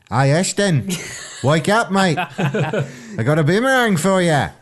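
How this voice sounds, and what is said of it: Bad put-on Australian accent. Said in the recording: “Is that a good Australian accent? ... It was terrible.”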